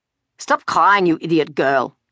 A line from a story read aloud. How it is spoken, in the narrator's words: he said harshly